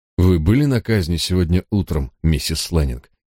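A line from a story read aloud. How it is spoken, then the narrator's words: Calm tone. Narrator (Russian): спокойным тоном спросил я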